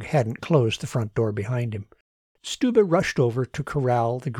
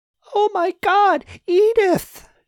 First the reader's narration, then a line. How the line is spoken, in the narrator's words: shrieked a grieving neighbor woman